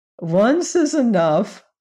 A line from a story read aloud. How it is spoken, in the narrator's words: replied the shaggy man, laughing